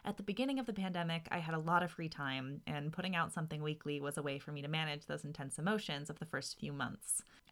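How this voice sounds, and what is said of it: Speaks with vocal fry. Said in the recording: “you'll still get to hear my vocal fry”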